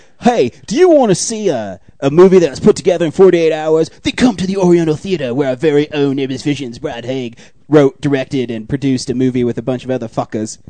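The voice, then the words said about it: TV ad voice drifting Australian. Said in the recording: “Like you're trying to sell like paper towels on the TV... Is that your Sam Worthington impression?... My accent keep on changing?... You were slowly falling into an Australian accent.”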